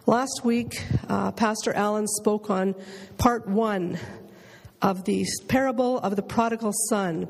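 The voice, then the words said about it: Raspy, strained voice. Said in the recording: “I'm hoping my voice lasts out for this, and I'm sorry if it's a bit raspy, but it's better than it was when I got up this morning”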